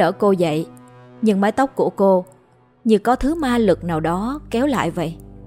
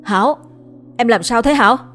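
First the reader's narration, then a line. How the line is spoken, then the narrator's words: Urgent shout. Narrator (Vietnamese): Chú vội hét lên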